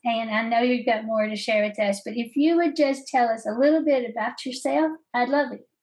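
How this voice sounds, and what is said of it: Southern American accent. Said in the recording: “my favorite Southern accent”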